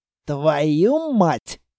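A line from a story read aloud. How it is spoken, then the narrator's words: Hissed. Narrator (Russian): прошипел Строгов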